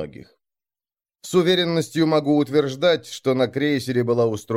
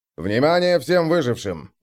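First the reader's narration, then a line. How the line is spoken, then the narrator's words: Plain. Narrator (Russian): говорит капитан Лейман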